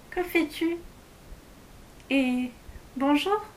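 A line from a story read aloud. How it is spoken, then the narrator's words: Very gentle voice. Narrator (French): Elle lui demanda d'une voix toute douce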